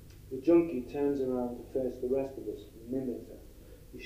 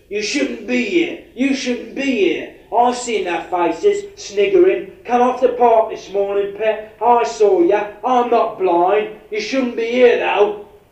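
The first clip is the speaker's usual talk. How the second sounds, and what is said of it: Vicious shouting Cockney accent. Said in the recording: “attacks her in a vicious Cockney accent.”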